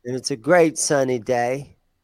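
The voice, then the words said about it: Put-on English or Australian accent. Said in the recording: “That was my English accent, Australian accent.”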